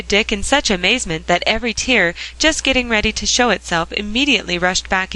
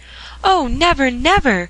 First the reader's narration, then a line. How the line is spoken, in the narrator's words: cried Dick